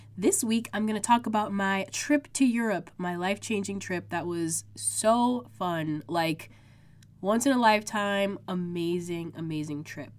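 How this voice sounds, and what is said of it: Congested, sick-sounding voice. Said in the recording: “I'm sick. I don't know if you guys can hear it in my voice... I'm so congested. My throat is sore”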